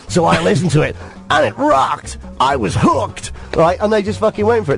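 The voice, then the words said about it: Put-on American accent. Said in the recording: “That was my American accent”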